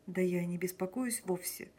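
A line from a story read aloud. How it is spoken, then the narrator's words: Sighing. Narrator (Russian): Марья Николаевна вздохнула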